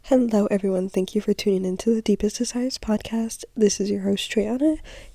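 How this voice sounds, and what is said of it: Sick-sounding voice. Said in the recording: “I don't know if you guys can hear in my voice, but I'm sick.”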